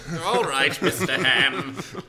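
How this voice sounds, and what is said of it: Mediocre put-on British accent. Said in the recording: “I made that chauffeur British ... Kind of British ... You don't like my British accent”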